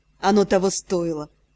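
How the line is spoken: Satisfied snort. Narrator (Russian): Довольно хмыкнула Скани

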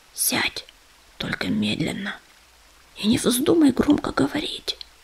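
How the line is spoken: Hoarse whisper. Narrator (Russian): он сипло прошептал

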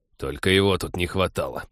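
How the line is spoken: Startled grumble. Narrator (Russian): проворчал Тед в первый миг, тоже вздрогнувший

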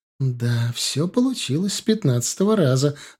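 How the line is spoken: Joyful reply, sister. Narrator (Russian): радостно ответила сестра

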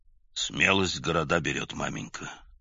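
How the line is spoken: Quiet. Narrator (Russian): тихо сказал он

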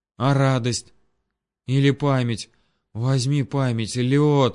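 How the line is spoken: Stammering, rapid. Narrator (Russian): запинаясь, зачастил калека

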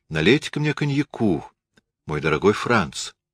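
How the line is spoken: Falsely jaunty exclamation. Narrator (Russian): удалым, чуть-чуть фальшивым тоном воскликнула

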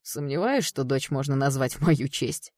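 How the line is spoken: Snorting chuckle. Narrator (Russian): хмыкнул Кэл

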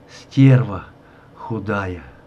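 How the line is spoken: Dejected sobbing whisper. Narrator (Russian): Подавленный всем этим, он то и дело всхлипывающе шептал

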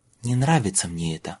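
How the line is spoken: Muttered. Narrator (Russian): снова пробормотала Элли

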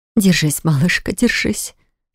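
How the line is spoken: Mother's whisper. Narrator (Russian): Шепот мамы

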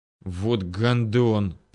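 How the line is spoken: Angry hiss. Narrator (Russian): прошипел хан, которого основательно забрызгало каплями крови

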